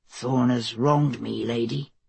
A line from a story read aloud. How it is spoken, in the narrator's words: Elston said quietly